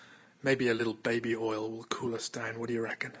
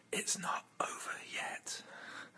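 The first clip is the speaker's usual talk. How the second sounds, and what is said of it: Whispering. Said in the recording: “as I lean in and whisper”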